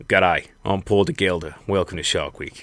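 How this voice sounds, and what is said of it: Attempted Australian accent. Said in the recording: “I don't know what the fuck that accent was. Australia, mate ... I got work on my accent.”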